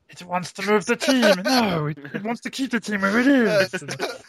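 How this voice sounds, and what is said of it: Gollum-like split-personality character voice. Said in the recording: “sort of Gollum Lord of the Rings reference ... that was pretty good ... That is a good impression, I have to say. I am impressed by your impression.”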